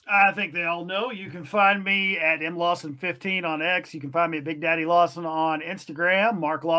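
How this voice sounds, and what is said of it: Usual voice. Nothing is said of it.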